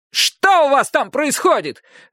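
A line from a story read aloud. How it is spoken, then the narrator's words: Grumpy shout from below. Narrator (Russian): выкрикнул с нижней площадки сварливый голос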